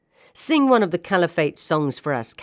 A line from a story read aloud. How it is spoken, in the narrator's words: Captain Wissam said, laughing hysterically, his eyes blazing with rage